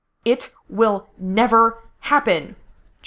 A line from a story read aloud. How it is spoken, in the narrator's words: Gerard snapped